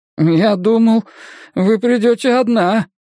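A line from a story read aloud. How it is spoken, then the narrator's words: Timid babbling. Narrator (Russian): пролепетал Равира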